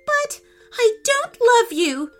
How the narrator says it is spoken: wailed the princess

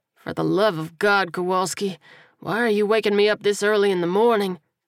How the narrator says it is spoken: he groaned through a yawn

